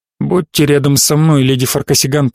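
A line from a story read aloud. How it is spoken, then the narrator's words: Muttered. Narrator (Russian): пробормотал Ботари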